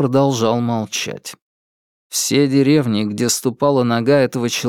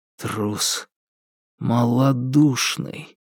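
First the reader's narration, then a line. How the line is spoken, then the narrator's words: Inner voice whispering. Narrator (Russian): шептал голос в моей душе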